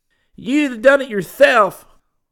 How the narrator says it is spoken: bellowed Vince

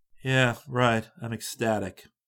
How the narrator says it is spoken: Chris said dryly

